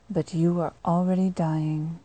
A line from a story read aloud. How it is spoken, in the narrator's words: sighed into his ear